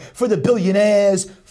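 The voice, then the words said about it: Put-on New York accent. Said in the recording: “with his New York accent”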